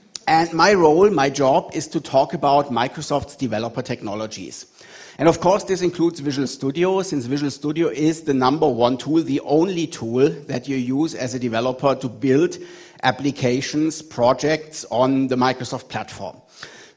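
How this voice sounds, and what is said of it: German-accented English. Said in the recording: “I'm based in Munich in Germany, and you can hear that from my accent. ... I sound like the bad guy in a World War II movie”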